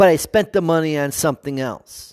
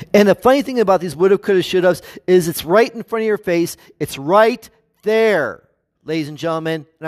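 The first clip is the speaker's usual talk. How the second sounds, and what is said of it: Raised, loud voice. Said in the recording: “I'm sorry if I'm raising my voice”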